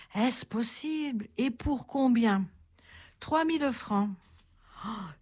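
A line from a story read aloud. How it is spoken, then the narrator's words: Old woman exclaiming. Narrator (French): s'écria la vieille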